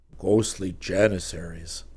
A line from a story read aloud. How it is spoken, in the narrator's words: Geronimo muttered in disgust